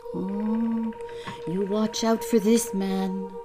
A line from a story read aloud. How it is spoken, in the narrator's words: my passenger whispered